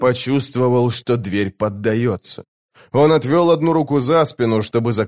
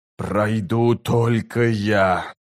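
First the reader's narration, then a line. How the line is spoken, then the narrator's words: Hiss. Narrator (Russian): прошипел чародей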